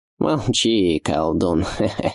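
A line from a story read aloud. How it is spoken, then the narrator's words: Ringing laughter. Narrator (Russian): Звонко засмеялась Адаль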